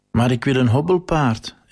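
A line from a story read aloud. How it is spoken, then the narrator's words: Crying out. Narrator (Dutch): riep huilend uit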